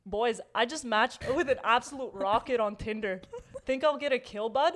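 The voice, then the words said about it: Put-on hockey player accent. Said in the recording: “What fucking accent is that? ... It's like, a hockey accent. ... It's a hockey accent.”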